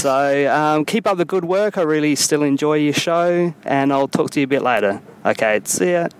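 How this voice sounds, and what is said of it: Terrible put-on Australian accent. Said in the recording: “that was a terrible Australian accent by ... So awful. Atrocious.”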